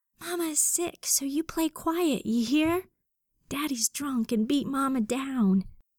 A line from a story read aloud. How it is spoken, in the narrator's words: Quietly, she began to whisper